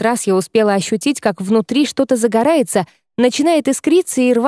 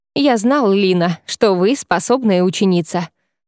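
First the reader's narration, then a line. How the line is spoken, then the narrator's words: Smirking snort. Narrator (Russian): хмыкнул Шахиловерион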